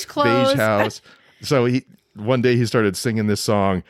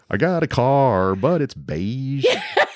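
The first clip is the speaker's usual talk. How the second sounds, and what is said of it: Sung in a Southern accent. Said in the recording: “southern accent there ... He was like a honky tonk singer”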